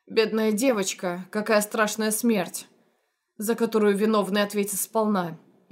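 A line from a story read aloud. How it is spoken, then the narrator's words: Hateful, through gritted teeth. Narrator (Russian): ненавидящим взглядом процедил Генри Латимер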